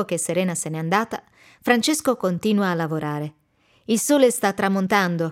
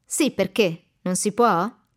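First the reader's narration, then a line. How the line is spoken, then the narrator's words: Annoyed question. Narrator (Italian): domanda lui con tono seccato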